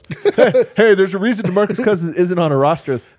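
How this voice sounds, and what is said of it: Mock impression of the hosts themselves. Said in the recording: “I'm like impersonating ourselves.”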